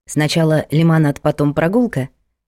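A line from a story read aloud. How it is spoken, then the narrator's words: Plain question, boy. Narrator (Russian): спросил паренек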